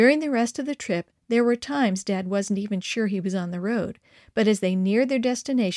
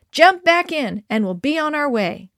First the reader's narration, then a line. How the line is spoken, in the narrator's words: Dad exclaimed a few minutes later, shouting above the wind